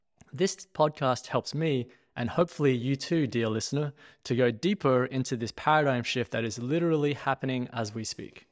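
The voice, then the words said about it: Australian accent. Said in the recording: “my accent is actually Australian”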